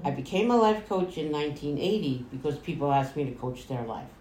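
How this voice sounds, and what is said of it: New York accent. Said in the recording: “I am from New York, as you can hear in my accent.”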